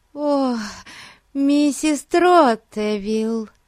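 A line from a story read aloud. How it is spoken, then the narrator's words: Affected, mannered exclamation. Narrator (Russian): воскликнула та каким-то жеманным голосом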